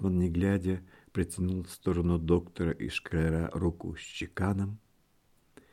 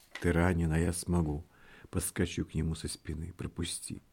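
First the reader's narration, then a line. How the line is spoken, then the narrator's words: Whispered. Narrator (Russian): зашептал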